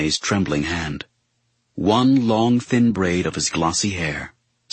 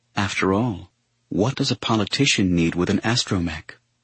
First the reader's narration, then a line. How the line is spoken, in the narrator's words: a gentle smile and a whisper